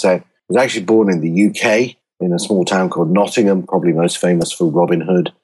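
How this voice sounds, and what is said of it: British English accent. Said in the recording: “you'll spot from the accent that I'm not a Native American or wasn't born in America”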